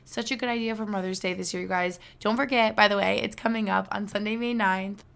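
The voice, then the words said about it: Breathless, fast speech. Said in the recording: “I feel like I keep gasping for air in this episode. Like, I'm out of breath. Probably because I'm talking really fast.”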